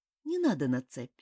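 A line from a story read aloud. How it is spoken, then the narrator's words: Calm. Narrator (Russian): спокойно сказал он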